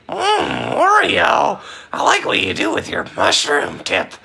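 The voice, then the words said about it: Marge Simpson cartoon voice impression. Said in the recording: “this is my impression of Marge Simpson having sex with Wario”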